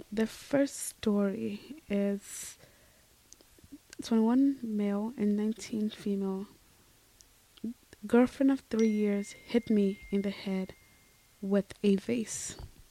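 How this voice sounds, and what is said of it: Hoarse, strained voice. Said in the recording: “apologize for my voice, a little hoarsey today. My throat's killing me”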